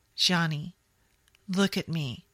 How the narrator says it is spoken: Jamie said calmly

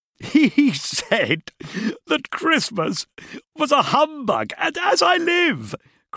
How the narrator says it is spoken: cried Scrooge's nephew

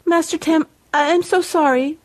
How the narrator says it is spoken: she began to stammer

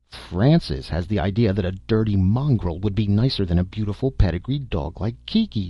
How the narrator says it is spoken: she cried disgustedly

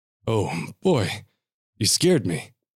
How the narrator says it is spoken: Sully said, with a chuckle

